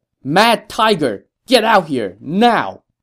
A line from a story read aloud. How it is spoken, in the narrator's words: Ma Chao shouted